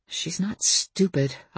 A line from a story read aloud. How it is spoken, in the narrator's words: I muttered to myself